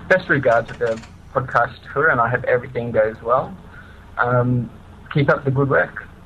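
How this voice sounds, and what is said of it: Australian accent. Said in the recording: “my convict accent”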